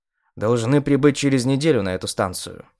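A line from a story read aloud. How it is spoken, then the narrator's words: Calm. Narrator (Russian): спокойно сказал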